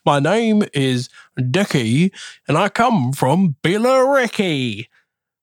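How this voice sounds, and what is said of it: Put-on Essex accent. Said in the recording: “How's your Essex? ... It's not an Essex accent. ... the modern interpretation of an Essex accent. That's far too much diction there.”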